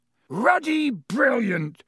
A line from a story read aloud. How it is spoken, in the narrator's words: boomed Hagrid over the heads of the milling Gryffindors